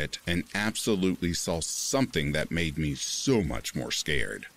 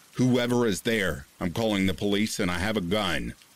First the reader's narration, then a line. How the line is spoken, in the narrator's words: I yelled